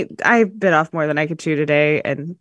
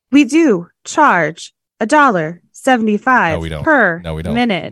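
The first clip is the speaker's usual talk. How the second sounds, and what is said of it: Imitated automated phone voice. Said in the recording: “stop doing that voice ... Oh, that was my automated voice. ... It really was good, actually. I thought it was a good one.”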